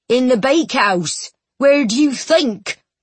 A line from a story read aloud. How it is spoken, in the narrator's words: he replied crossly